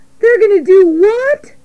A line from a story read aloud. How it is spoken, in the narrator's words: shrieked Wilbur